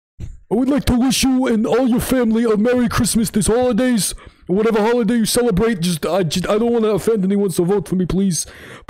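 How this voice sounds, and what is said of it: Bernie Sanders impression. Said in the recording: “show them Bernie Sanders ... I'll do his voice.”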